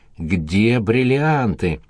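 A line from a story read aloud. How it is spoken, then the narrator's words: Hoarse female voice. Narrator (Russian): хрипела Александра Иосифовна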